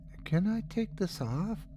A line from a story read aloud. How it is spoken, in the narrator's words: she asked in that same meek voice